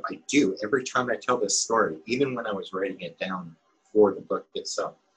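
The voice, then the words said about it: Choked-up, emotional voice. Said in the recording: “I'm sorry, I'm getting choked up.”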